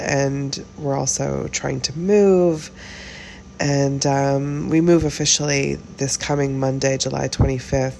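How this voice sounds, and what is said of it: Voice sounds ill, recovering. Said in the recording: “as you can hear in my voice, I'm getting over something. In this case, it's COVID.”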